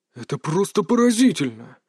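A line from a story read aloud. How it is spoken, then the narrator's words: Shocked breathless exclamation. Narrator (Russian): выдохнул он с явным шоком в голосе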